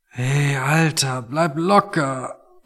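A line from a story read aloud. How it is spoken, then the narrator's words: Quiet, strained. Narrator (German): meinte Tony und sprach leise, weil jedes Geräusch einfach noch zu viel für ihn war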